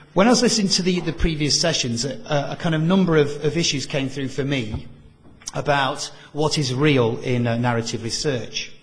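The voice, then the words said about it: Very northern English accent. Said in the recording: “my very northern English accent”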